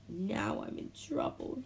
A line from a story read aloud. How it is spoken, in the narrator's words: he groaned